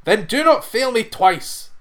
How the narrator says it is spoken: cried the farmer

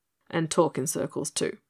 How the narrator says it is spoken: muttered the guard impatiently

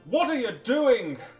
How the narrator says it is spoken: cried Manfred wrathfully

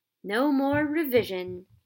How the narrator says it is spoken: Ron sighed happily

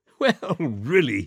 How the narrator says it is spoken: he cried, and then he choked and laughed again

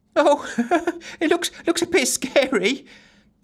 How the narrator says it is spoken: giggled Giggles, as she always did when afraid

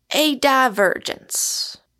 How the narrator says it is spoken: said Dr

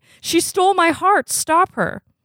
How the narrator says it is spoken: reportedly shouting repeatedly

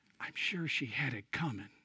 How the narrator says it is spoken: the diplomat responded softly

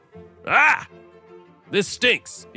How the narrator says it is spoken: hollered

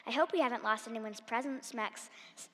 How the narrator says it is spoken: he said

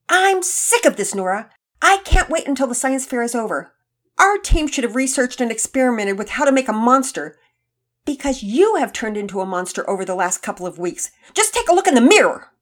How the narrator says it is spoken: Penelope was yelling

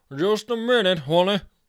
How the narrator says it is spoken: he shouted

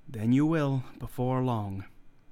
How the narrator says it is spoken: said, very gravely

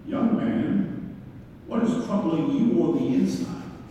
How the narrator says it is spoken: calmly stood up, brushed himself off, and said

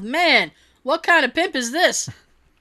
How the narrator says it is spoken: Some guy yelled

